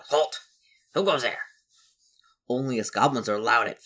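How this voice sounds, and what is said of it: Goblin character voice. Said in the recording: “I'll get my best goblin voice.”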